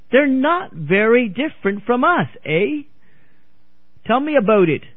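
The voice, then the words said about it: Poor imitation Canadian accent. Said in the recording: “I give a lousy Canadian accent”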